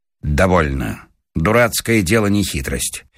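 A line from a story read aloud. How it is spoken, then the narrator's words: Sudden anger, stern. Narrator (Russian): Павел Сучков вдруг озлился и сказал строго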